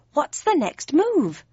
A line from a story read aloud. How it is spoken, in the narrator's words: I said more urgently